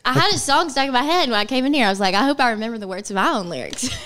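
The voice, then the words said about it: Alabama accent. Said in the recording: “Sorry, it's my accent. ... Alabama.”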